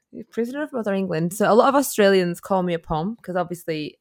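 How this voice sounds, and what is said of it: British accent. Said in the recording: “as you can hear by my accent, I am from the UK”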